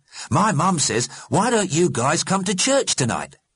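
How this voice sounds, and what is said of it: Dismally jolly voice. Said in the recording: “in a dismally jolly voice.”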